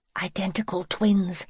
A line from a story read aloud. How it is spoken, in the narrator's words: Henrietta whispered